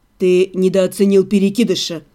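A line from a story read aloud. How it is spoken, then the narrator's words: Calm correction. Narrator (Russian): Спокойно поправил его Себастьян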